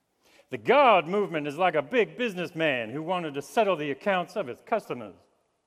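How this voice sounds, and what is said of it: Put-on Virginian accent. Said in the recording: “I'm also going to practice a Virginian accent, so we'll see how we go.”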